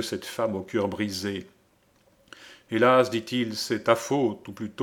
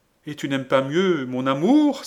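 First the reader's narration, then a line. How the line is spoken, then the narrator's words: Furious exclamation, clapping hands. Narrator (French): s'écria Lorenza en frappant avec rage dans ses deux belles mains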